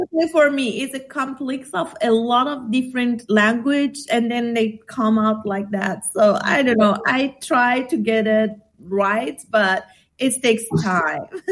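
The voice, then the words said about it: Mixed multilingual foreign accent. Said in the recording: “I can hear you fluctuating through different ... if you're hearing this accent ... this is a global person right here with many languages ... I love the way you change the words a little”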